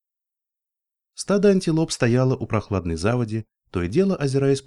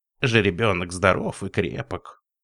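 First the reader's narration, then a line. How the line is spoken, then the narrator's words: Creaky old woman's voice. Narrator (Russian): проскрипела старуха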